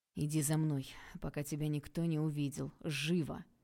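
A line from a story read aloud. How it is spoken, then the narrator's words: Through gritted teeth. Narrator (Russian): процедила Валентина Анатольевна сквозь зубы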